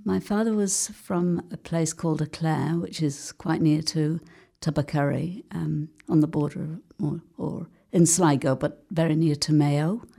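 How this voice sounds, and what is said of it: Manchester English accent. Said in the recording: “we can hear you speak with a Manchester accent”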